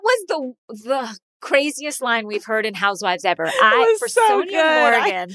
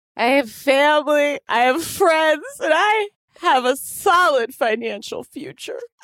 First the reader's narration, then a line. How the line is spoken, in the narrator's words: Sonia had just recently slurred